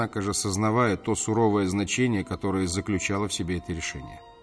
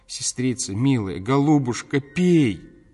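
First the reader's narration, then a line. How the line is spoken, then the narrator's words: Frantic terrified screaming. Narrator (Russian): Анненька, почти обезумев от страха, кричала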